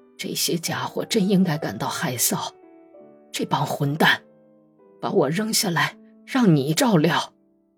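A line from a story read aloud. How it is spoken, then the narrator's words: Low, muffled voice. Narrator (Chinese): 本丘克翻过身去，对着墙低声说道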